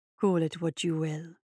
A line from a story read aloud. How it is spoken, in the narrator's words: she said, moving close enough to whisper in his ear